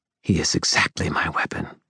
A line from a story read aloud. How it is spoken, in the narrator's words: she hissed